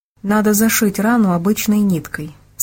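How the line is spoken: Plain. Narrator (Russian): сказала Джейн

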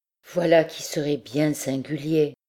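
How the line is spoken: Female murmur. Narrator (French): murmurait-elle

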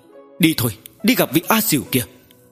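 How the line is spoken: Shouting. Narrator (Vietnamese): Quát nói

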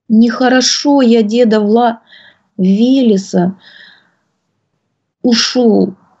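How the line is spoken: Tearful, upset babble. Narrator (Russian): сквозь слезы пролепетал расстроенный Василек

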